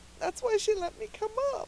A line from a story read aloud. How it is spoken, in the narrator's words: she sobbed